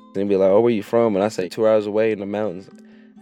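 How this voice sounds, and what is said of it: Rural Kentucky country accent. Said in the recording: “Fresh out of Harlan County, of course I'm gonna have my country accent.”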